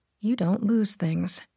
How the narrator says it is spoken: she murmured

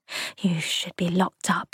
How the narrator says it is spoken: she whispered

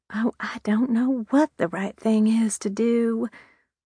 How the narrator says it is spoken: she murmured

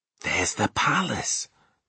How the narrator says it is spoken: Sophie whispered back

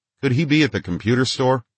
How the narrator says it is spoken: came blurting out from the radio

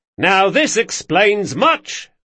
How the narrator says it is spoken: cried Galdo

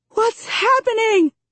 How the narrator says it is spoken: I scream over the gale-force winds

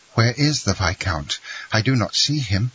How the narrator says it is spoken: said Franz, uneasily

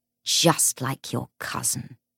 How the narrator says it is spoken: she sneered

